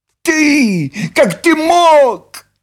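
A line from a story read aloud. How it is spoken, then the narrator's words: Shrieked. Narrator (Russian): взвизгнула Нюша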